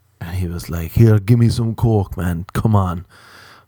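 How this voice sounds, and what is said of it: Put-on accent, admittedly wrong. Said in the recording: “I'm doing a wrong accent”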